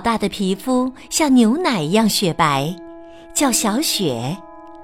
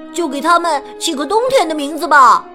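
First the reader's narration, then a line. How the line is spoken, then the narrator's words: Loud shout. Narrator (Chinese): 他大声叫道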